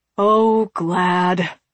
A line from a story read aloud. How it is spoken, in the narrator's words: sighed